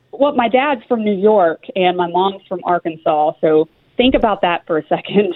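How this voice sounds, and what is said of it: Slight Southern twang accent. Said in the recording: “a little bit of a little accent there... A little twang... Not that bad, is it?... Southern accent”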